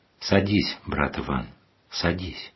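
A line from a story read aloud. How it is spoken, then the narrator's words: Calm, courteous. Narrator (Russian): спокойно и любезно указал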